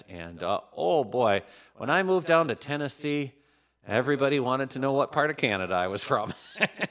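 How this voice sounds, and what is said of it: Minnesota accent. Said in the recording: “I'm from the great state of Minnesota, if you can't tell by the accent.”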